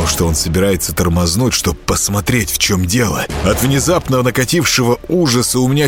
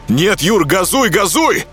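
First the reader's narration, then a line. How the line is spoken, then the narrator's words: Shout. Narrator (Russian): крикнул я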